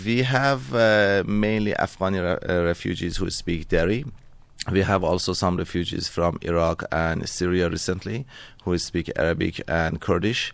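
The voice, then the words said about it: Iranian-accented English. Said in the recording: “you've got a beautiful accent yourself ... I originally am from Iran”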